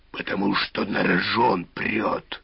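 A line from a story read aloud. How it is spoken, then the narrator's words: Tiger's growl. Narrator (Russian): рыкнул тигр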